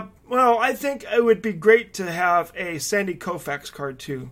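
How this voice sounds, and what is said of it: Usual voice. Nothing is said of it.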